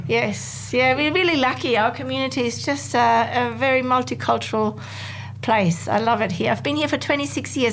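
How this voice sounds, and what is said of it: German accent. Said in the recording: “no wonder I can hear the German accent”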